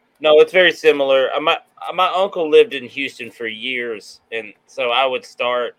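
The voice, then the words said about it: Southern US accent, East Texas-like. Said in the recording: “your accent sounds East Texas for sure”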